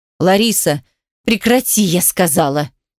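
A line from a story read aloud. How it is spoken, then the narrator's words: Fierce protective hiss. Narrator (Russian): прошипела в ответ женщина, готовая, как кобра, в любую секунду броситься на защиту единственного чада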